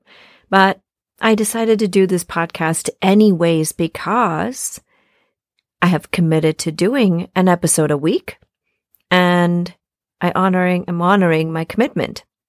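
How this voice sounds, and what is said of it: Congested voice with a cold. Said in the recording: “as you can probably tell with my voice, I have a bit of a cold.”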